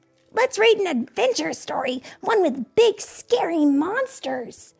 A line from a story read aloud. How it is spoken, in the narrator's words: Chip exclaimed